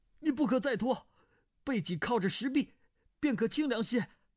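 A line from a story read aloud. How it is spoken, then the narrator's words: Called out. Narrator (Chinese): 段誉叫道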